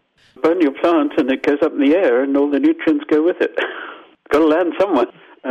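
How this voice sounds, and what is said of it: Zimbabwean accent. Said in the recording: “I'm Zimbabwean, as you probably got from my accent. Sorry, Zimbabwean Canadian”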